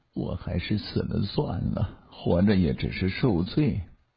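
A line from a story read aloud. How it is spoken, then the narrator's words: Low, sudden, after silence. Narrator (Chinese): 他沉默了好久，又突然低声地说起来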